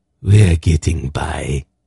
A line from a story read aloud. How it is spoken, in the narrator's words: Zelmet said in a rasping voice